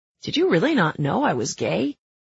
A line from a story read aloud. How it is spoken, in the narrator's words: I laugh